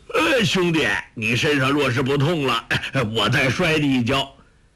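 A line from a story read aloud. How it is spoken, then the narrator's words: Delighted shout. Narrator (Chinese): 周伯通大喜叫道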